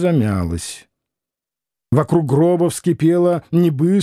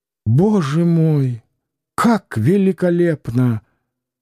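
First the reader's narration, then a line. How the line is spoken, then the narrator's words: Sigh. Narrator (Russian): вздохнула Варвара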